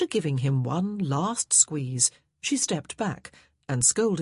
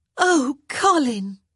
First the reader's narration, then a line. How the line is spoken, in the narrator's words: Daphne exclaimed